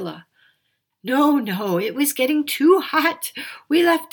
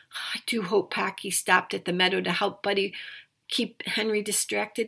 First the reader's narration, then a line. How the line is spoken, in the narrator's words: sighed Priscilla